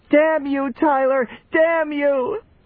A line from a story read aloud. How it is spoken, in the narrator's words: Brown Limper screaming